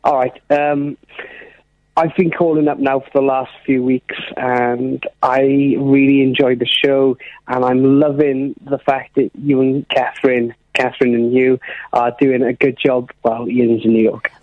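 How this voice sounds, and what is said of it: South Welsh accent. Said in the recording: “your accent ... I'm from South Wales.”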